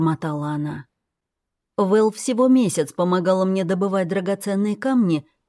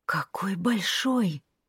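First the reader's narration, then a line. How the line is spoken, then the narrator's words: Whisper. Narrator (Russian): прошептала Вэл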